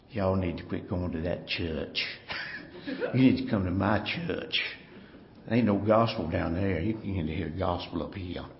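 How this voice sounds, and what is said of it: Imitated old Virginia lady's accent. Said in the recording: “an old Virginia lady ... she had a Virginia accent ... That's how she talked.”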